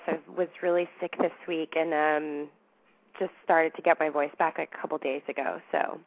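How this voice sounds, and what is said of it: Raspy, hoarse voice. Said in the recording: “my raspy voice”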